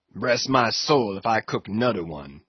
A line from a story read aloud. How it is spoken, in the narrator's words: he growled, angrily